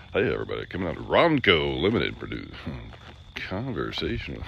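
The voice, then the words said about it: Silly radio announcer voice. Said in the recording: “We should do a silly radio announcer voice.”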